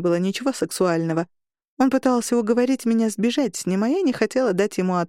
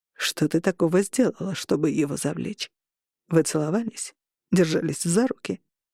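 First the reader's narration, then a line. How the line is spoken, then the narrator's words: Restrained, slightly irritated. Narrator (Russian): Он говорил сдержанным тоном, но в нем проскакивало легкое раздражение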